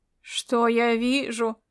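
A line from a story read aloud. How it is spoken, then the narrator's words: Booming drone. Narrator (Russian): прогудел Ирвинг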